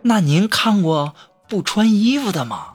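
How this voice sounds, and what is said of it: Whispered, hushed voice. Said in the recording (Chinese): “小声说”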